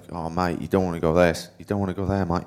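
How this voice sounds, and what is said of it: Put-on Australian accent. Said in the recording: “He's Australian. That's my best Aussie accent.”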